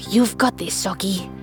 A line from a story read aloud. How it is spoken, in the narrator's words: he whispers to himself